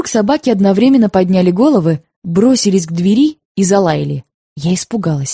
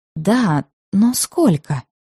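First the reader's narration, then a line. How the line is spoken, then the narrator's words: Near whisper. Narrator (Russian): Понизив голос, почти шепотом он ответил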